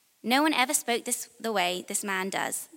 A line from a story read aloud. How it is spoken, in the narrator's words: the guards replied